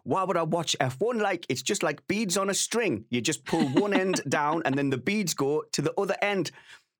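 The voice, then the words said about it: Geordie accent impression. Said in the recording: “That is a perfect Geordie accent”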